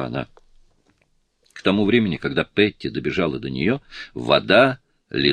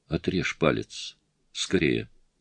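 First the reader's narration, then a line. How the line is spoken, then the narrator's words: Sudden calm statement. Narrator (Russian): Внезапно Сильвана спокойно сказала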